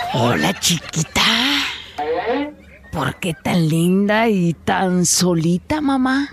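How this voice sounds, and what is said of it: Whispering seductively. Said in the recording (Spanish): “susurrándole al oído le dice... susurrante... muy susurrador”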